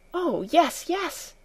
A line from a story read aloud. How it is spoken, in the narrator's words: exclaimed Heidi, her face now rosy with delight